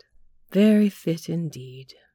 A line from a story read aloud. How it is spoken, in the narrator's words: she sighed